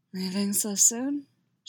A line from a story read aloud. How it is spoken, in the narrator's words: She asks, her voice more wrecked than she'd like to admit